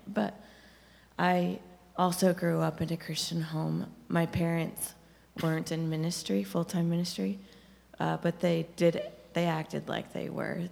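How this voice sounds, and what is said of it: Strained, struggling voice. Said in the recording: “Excuse my voice. I'm struggling a little bit tonight.”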